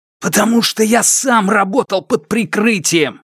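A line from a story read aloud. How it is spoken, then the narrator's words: Nearly shouting. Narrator (Russian): Сяо Вон чуть ли не кричал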